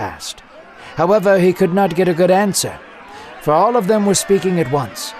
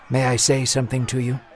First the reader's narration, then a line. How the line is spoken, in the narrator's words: he whispered calmly to the judge